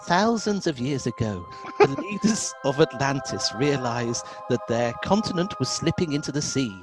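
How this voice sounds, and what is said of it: Soft, friendly-ish character voice. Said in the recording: “I get to do a voice ... A voice softly speaks ... The voice, which sounds friendly... kind of”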